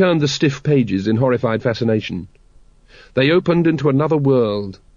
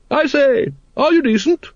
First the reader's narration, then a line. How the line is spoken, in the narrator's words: Lady Ramkin boomed cheerfully